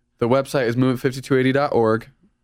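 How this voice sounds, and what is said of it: Talking really fast. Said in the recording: “I should say that slower. Sorry, I'm talking really fast.”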